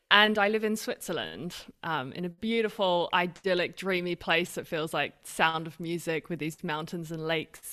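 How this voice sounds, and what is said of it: Mixed Australian-British accent. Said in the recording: “I'm Australian British ... it's the weirdest mix. No one knows what my accent is”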